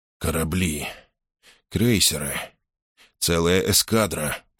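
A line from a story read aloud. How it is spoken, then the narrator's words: Muttered. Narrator (Russian): пробормотал Мейсон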